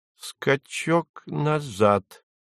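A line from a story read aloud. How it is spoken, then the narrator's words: Through gritted teeth. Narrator (Russian): проговорил Фарфуркис сквозь зубы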